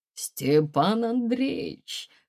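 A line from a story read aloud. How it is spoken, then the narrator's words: Velvety resonant voice. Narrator (Russian): сказал он своим бархатным голосом с благородными вибрациями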